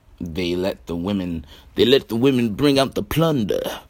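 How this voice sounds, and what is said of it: Bad Dusty Rhodes impression. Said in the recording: “terrible Dusty Rhodes impersonation.”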